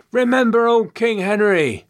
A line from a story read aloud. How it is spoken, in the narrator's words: Someone cried out from the crowd